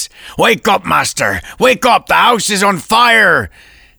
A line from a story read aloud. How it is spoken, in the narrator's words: their shouts